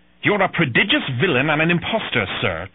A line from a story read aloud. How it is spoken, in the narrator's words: Trelawney spat at Silver